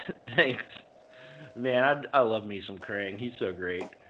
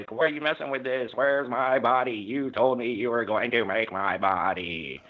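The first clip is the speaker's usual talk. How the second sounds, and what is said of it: Impression of a cartoon villain's voice. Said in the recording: “That's a very good impression.”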